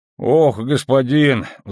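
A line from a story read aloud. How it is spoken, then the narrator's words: Sighing. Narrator (Russian): вздохнул сотник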